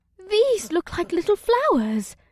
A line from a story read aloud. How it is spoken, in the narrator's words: Ibsith giggled